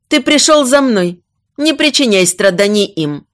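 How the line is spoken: Shout. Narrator (Russian): крикнула Леолия

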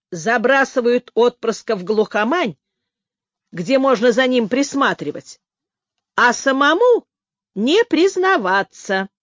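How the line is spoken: Grumbled. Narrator (Russian): проворчал Лис

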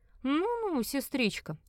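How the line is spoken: Mocking. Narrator (Russian): сказал он насмешливо

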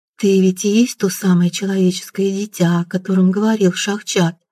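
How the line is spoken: Soft melodious female voice. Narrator (Russian): Мягким певучим голосом проговорила незнакомка

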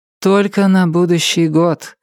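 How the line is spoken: Sighing. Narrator (Russian): вздохнула Полли

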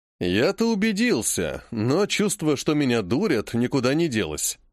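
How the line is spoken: Plain. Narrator (Russian): сказал Зырянов

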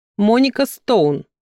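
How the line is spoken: Snorting wife. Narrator (Russian): фыркнула его супруга

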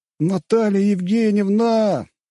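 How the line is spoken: Mocking shout. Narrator (Russian): издевательски прокричал я

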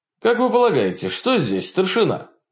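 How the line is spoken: Cheerful, upbeat question. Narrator (Russian): бодро спросил молодой офицер, ощущая прилив веселья

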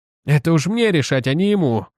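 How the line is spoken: Grumbled. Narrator (Russian): буркнул Настойч

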